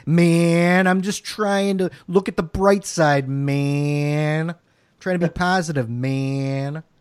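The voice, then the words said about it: Put-on jabroni character voice. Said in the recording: “That's my jabroni impression.”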